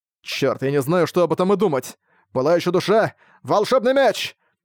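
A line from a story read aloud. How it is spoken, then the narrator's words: Shouting. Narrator (Russian): тот крикнул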